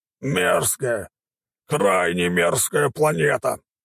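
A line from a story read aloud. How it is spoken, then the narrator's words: Growling. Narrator (Russian): прорычал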